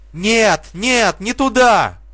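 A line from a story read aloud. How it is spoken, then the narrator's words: Several voices shouting in vain. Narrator (Russian): кричали также бесплодно Жули и ее друзья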